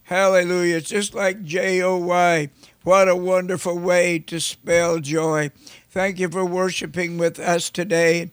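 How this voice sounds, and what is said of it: Slightly raspy voice. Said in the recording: “I'm getting over some sinus activity where it's been draining in my throat, and it's a little bit raspy”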